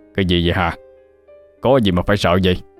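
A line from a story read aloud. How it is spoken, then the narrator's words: Old man shouting in pain. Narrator (Vietnamese): Ông đau mà quát lên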